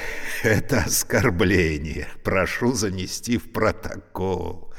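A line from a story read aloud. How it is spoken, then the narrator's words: Laughing. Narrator (Russian): засмеялся Евгений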